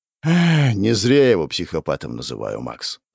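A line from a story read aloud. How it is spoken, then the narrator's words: Sigh. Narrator (Russian): вздохнул Ктул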